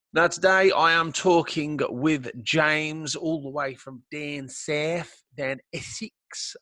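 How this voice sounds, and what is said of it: Poor put-on Essex accent. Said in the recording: “That's a terrible accent of mine. Impression, sorry.”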